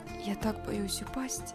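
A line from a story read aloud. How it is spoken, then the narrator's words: Whispered. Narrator (Russian): прошептала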